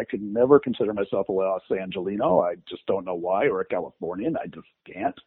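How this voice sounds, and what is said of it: New York accent. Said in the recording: “it's that New York accent that still shows through”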